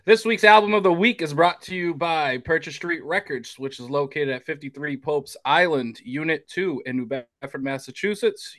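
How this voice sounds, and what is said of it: Announcer-style radio voice. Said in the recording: “I'm going to try to do this in my best radio voice.”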